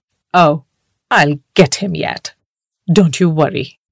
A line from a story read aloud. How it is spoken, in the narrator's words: snorted